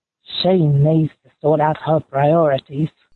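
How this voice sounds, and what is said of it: Spot-on imitation of a boy character. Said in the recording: “She was the only one to do Ron ... Ron. I thought Ron was spot on”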